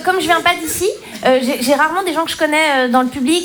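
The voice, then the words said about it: Slight foreign accent. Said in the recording (French): “peut-être vous entendez un petit accent. En fait, je viens pas d'ici ... Moi je suis suisse”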